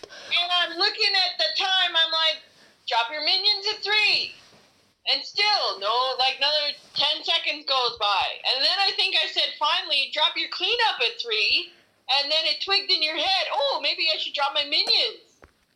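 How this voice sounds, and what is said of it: Unusual regional accent. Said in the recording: “your weird accent”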